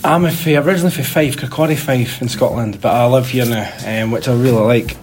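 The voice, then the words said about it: Scottish accent. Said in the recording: “with my accent, you can tell I'm from Scotland”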